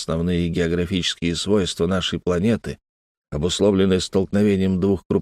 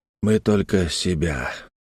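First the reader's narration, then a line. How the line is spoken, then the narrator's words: Sighed. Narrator (Russian): вздохнул Малькольм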